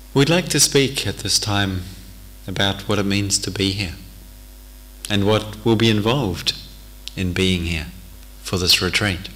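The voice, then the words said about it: Thick accent, somewhat fast speech. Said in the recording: “my accent can be rather thick, and sometimes the words come a little quickly”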